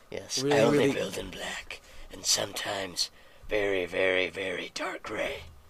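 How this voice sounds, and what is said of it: Raspy Batman character voice. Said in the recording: “I haven't done that voice in so long ... I'm pretty good at an imitation of Batman, because my voice already sounds pretty raspy on its own ... it just sounds like you're a 40-year-old smoker smoking a pack a day”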